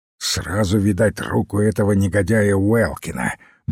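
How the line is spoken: Grumbled. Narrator (Russian): буркнул Смайс

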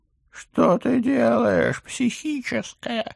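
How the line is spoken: Hysterical howl. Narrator (Russian): истерично взвыл профессор

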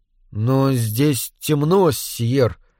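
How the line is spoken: Uncertain. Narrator (Russian): неуверенно сказал я

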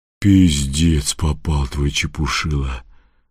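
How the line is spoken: Exhaled, a devil. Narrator (Russian): выдохнул кто-то из чертей

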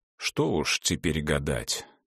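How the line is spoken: Muttered through teeth. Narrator (Russian): пробормотал он сквозь зубы

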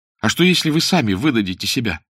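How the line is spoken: Exclamation. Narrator (Russian): воскликнул тот

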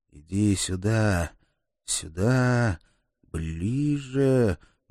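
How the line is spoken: Tense muttering. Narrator (Russian): бормотал я, группируясь перед прыжком

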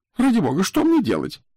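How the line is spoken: Squeaking in the ear. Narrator (Russian): пищал мне в ухо Дезассар

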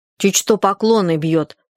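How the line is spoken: Angry. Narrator (Russian): сказала она сердито

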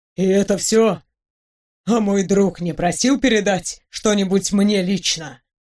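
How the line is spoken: Trembling-voiced question. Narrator (Russian): дрогнувшим голосом спросил бедный доктор

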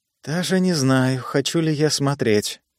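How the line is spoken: Whisper. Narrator (Russian): прошептала Эдди

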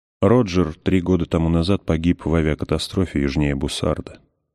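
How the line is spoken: Plain. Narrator (Russian): сказал он

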